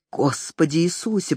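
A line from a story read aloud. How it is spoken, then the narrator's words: Muttered. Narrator (Russian): пробормотал Джек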